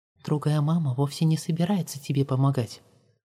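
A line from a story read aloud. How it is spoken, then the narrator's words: Ghostly whisper in ear. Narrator (Russian): прошептал ей в ухо призрачный голос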